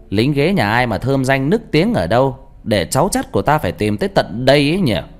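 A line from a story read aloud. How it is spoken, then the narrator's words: Loud ringing voice. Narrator (Vietnamese): Mẹ tôi nói lớn bằng giọng sang sảng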